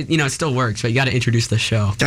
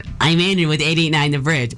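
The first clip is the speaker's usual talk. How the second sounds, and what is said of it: Exaggerated imitation of another's voice. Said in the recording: “Do I sound like that ... Then why did you imitate me like that? ... That was an exaggerated impersonation.”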